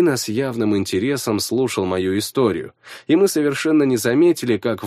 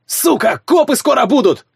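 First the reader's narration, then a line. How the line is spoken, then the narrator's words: Shout. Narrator (Russian): крикнул один из парней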